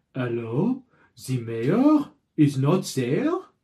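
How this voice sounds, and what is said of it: Put-on vague French-style accent. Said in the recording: “a weird accent that is of indiscriminate origin ... Just a different kind of French accent.”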